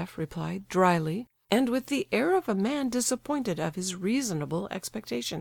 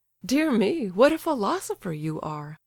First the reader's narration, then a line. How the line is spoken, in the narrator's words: laughed the prince